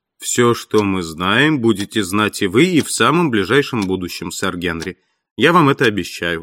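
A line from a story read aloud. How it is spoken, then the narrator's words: Plain. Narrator (Russian): ответил Холмс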